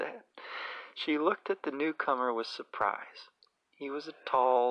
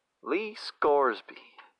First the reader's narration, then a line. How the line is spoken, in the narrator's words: he said